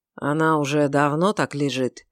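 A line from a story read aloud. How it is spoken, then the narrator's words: Low voice. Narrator (Russian): спросил он низким голосом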